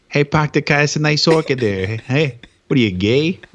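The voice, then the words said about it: Boston accent. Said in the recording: “Can you say, hey, nice orchid in a Boston accent? ... That's pretty good.”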